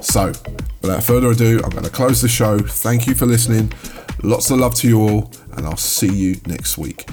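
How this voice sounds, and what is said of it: Strained, fading hoarse voice. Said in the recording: “my voice is going”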